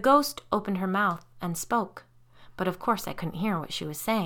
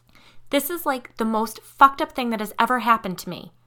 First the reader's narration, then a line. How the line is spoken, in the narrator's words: Kiri exclaimed